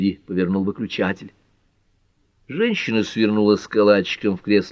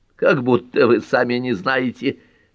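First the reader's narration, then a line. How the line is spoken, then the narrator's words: Laughter turning to hiccups. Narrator (Russian): Лола снова засмеялась, и смех перешел в икоту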